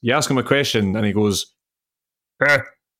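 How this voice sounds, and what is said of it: Impression of Craig Levein's grunt. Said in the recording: “I do a very good impression of Craig Levein ... He just makes like a sort of, eh.”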